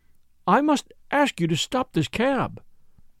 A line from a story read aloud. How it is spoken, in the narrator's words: she faltered